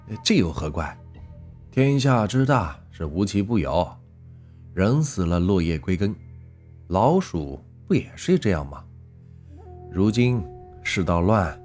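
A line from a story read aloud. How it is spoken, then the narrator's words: Hearty laughter. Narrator (Chinese): 刘三猫 哈哈笑道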